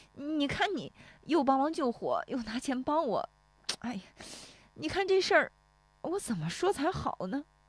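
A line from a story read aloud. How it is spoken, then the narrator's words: Choking up. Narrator (Chinese): 石有福说着又要哽咽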